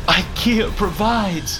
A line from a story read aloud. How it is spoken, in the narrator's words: gasped Footstool, who lay there with eyes widened in disbelief of what had just happened